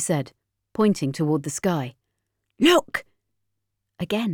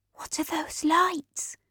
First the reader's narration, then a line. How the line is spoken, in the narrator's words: I whispered